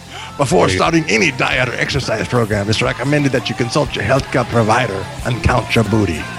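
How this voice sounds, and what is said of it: Irish-Scottish pirate voice. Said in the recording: “That was sort of an Irish-Scottish pirate there.”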